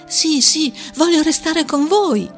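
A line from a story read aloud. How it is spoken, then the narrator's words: Child shouting. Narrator (Italian): gridò il bambino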